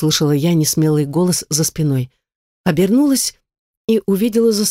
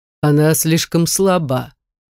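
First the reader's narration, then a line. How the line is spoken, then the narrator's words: Deep bass, to himself. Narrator (Russian): ответил он басом сам себе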